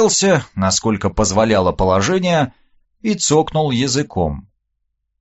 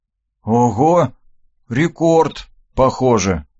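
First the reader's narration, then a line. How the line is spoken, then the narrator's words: Sighed. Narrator (Russian): вздохнул я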